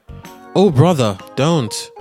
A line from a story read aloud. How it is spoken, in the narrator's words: a crocodile came near to her and threatened to eat her, and she cried